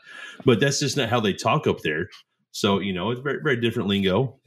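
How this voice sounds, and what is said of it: Southern country American accent. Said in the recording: “you do sound country ... I'm from Oklahoma. That's just how we talk in the South ... I probably do sound a little different”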